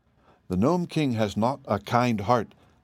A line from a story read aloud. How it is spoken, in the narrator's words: said the Emperor sadly